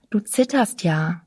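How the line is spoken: Plain. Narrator (German): sagte ich

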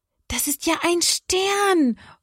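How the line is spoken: Calling out. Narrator (German): ruft Johanna

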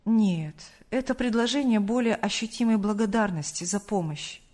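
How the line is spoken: Calm. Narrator (Russian): спокойно ответил Сергей Павлович

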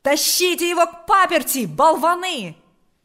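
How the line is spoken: Annoyed shout. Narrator (Russian): закричал отец Паисий, досадуя на неожиданную помеху

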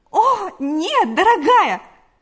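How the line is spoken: Exclaimed. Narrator (Russian): воскликнула Галя

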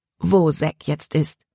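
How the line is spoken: Plain. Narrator (German): fragte er Libby

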